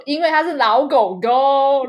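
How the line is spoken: Very loud. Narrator (Chinese): 然后年思雨就很大声的说

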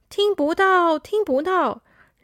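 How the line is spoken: Crowd of animals shouting. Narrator (Chinese): 广场上的动物们都在大喊着

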